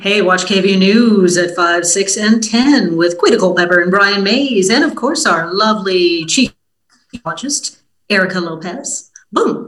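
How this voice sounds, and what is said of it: TV news announcer voice. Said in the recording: “that was my announcer voice.”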